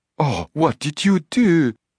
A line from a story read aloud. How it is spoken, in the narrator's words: She cried with a pronounced French accent